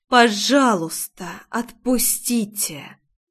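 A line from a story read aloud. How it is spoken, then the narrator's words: Barely restrained fury. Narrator (Russian): Едва сдерживая ярость, процедила я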